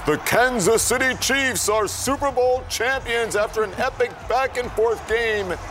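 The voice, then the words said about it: Super Bowl announcer-style voice. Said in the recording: “do my Super Bowl voice.”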